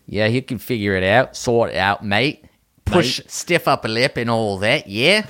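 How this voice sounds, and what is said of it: Mixed British and Australian put-on accent. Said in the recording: “You mixed two accents just now, like the British and the Australian. It's a stiff upper lip and all that with the Australian.”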